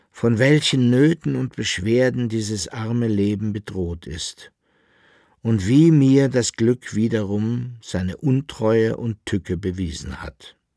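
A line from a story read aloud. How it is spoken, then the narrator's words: Weak lamenting voice. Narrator (German): klagte mit matter Stimme der Alchemist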